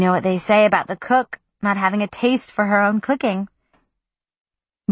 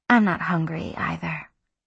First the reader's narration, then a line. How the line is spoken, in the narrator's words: Smiling faintly, Susanna said